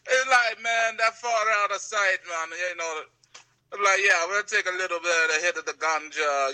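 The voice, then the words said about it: Poor put-on Jamaican accent. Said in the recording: “I'm sorry to all Jamaicans for making that terrible accent.”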